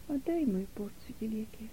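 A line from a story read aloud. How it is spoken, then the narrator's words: Barely audible, quiet voice. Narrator (Russian): ответила нета едва слышным тихим голосом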